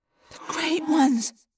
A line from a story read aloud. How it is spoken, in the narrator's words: I whispered